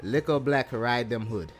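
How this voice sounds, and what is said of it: Attempted put-on accent. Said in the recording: “she went into the accent here, so I'm gonna try to do my best ... You got to say that with an accent”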